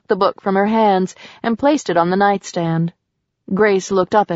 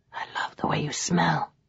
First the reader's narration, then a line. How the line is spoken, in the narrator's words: whispered